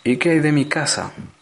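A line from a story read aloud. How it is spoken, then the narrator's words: Whiny question. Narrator (Spanish): preguntó en tono quejumbroso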